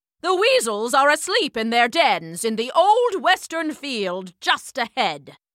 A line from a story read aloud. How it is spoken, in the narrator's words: Major Mallow barked